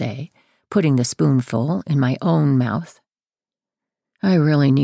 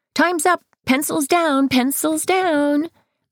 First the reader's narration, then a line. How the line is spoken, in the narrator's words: Amaya hollers